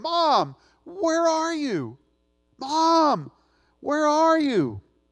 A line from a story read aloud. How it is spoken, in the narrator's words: a little boy who got lost in the grocery store, and he cried out over and over again